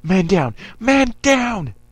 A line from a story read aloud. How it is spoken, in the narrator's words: Another one yelled